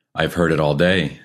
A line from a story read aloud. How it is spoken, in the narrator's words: said